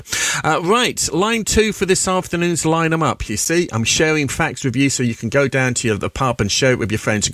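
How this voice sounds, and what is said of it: English accent. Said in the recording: “I got an English accent”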